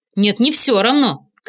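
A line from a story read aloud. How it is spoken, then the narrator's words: Shouted. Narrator (Russian): крикнула Инга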